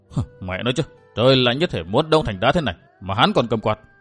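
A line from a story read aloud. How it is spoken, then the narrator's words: Muttering. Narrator (Vietnamese): tiểu nhị lẩm bẩm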